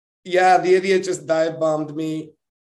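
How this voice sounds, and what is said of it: Imitates another person's voice, accent. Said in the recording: “Gave you a little bit of the accent there... that was a good accent... that was a terrible accent of Lance Stroll”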